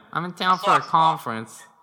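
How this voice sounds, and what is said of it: Weak put-on Boston accent. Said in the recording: “That's not a good impression. ... We're not going to do well in Boston.”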